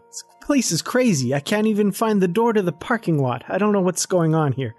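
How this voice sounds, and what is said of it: Imitates a fictional character's voice. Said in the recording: “That's my best Vic Von Fainten impression.”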